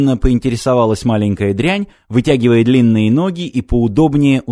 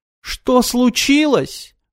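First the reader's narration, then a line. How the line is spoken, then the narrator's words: Howling. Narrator (Russian): взвыл Рек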